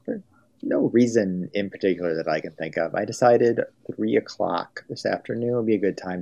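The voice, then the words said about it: American accent. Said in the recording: “Sheffield Wednesday opinion with an American accent.”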